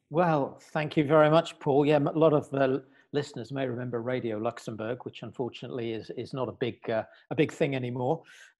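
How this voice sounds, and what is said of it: British accent. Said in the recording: “as a Brit, as you can tell probably from my accent”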